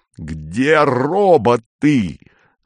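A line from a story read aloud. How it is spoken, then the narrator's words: Yelling. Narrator (Russian): заорал он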